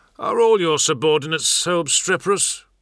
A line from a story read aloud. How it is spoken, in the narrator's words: grumbled the other captain